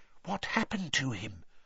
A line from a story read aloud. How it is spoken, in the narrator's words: Hermione whispered